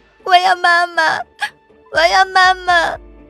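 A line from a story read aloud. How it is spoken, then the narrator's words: Child crying out tearfully. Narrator (Chinese): 孩子剧烈挣扎起来，带着哭腔喊道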